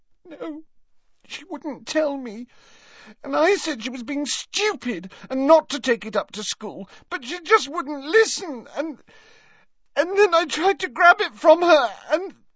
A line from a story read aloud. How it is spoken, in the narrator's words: Leanne let out a wail of despair